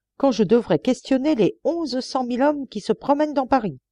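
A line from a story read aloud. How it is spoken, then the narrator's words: Exclaimed. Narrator (French): s'écria Lecoq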